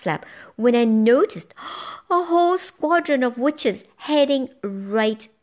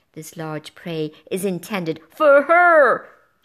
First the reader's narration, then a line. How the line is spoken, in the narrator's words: she yelled